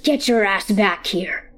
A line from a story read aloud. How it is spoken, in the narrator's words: rasps